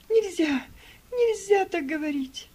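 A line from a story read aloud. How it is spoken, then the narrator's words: Girl sobbing. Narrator (Russian): Девочка зарыдала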